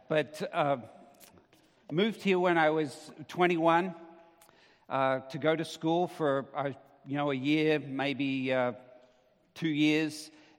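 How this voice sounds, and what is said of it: Australian accent. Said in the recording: “if you're wondering where the accent's from, I'm an Australian by birth ... slip into some Aussie speak”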